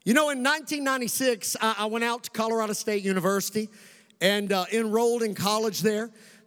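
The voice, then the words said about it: Kentucky Southern US accent. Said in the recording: “Still a Kentucky boy, and wherever I go, people ask me, where in the world are you from? They hear it in my accent, and I say, I'm from Kentucky”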